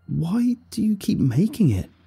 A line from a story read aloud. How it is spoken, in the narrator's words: I cried, tears finally overflowing onto my cheeks